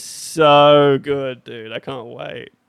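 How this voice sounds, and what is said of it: Sarcastic, mock-enthusiastic delivery. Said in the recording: “That was sarcasm.”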